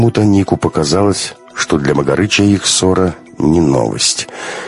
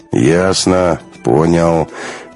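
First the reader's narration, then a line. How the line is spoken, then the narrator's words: Sad. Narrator (Russian): печально сказал Магарыч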